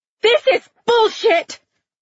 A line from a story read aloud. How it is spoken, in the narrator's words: the woman screamed